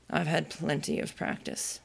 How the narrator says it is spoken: the knight said very gravely

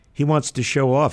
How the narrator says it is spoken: said his aunt with a chuckle

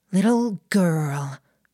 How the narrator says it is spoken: the twin spoke, her voice barely impacted by the weight of a 7-plus stone girl hanging off of her neck

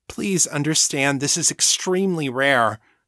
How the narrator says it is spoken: the doctor said, her tone pleading

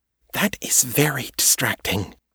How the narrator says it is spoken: Kate hissed

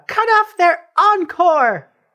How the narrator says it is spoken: Pageant's going to scream out

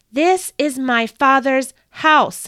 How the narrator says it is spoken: he screamed

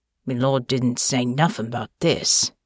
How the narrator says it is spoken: grumbled

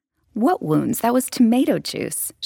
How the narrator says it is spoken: laughed indignantly

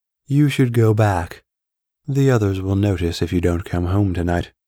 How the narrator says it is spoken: said the woman

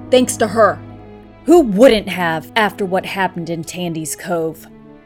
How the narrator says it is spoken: Kevin shouted

